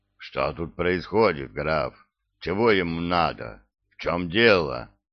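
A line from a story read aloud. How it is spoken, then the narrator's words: Muffled and hoarse. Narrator (Russian): Голос его звучал глухо и хрипло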